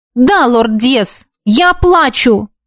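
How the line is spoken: Sharp reply. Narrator (Russian): резко ответила

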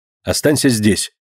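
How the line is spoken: Stern command. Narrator (Russian): строго приказал он Динке

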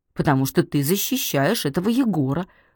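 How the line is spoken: Said angrily. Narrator (Russian): злобно сказала Наташка

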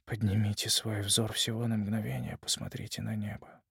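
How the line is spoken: Quiet, unaware murmur. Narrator (Russian): тихонько, сам того не осознавая, произнес

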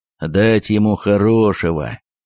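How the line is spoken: Slow, grim grumble. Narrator (Russian): медленно и мрачно проворчал городовой

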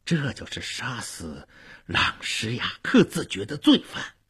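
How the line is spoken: Low voice. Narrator (Chinese): 福德昂低声地对夫人说

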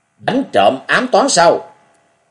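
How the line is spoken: Alarmed, raised voice. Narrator (Vietnamese): Ngọc Long chợt nhiên hốt hoảng, cao giọng nói

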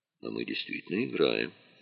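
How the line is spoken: Calm reply. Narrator (Russian): спокойно ответил Дронго

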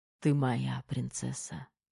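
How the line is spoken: Whisper. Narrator (Russian): прошептал Терех

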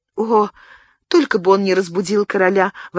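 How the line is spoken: Exclaimed. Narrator (Russian): воскликнула Мария

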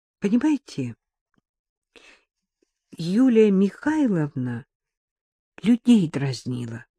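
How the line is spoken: Slow explanation. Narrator (Russian): медленно объяснила

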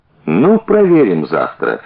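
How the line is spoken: Cheerful. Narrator (Russian): весело сказал Генка

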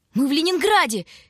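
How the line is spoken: Joyful shouting. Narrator (Russian): кричала от радости Таня

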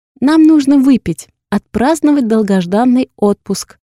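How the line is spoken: Loud confident voice. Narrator (Russian): уверенным громким голосом произносит Яна, чтобы докричаться до нас

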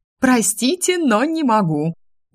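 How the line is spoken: Slightly hysterical laugh. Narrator (Russian): Несколько истерично рассмеялась я

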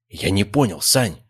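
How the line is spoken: Theatrical whisper. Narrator (Russian): начал он вещать театральным шепотом

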